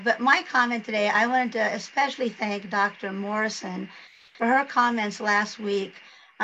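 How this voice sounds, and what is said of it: Hoarse, strained voice. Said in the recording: “apologize for my voice ... I have our good friend with laryngitis”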